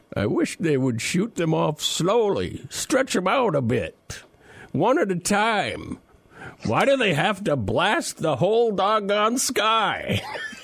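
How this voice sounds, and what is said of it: Imitated elderly man's voice. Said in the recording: “you need to quote in the exact sound of this elderly man. You need to do old man voice”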